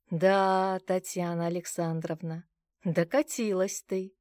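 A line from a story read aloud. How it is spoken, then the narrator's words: Sarcastic snort. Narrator (Russian): Язвительно хмыкнула я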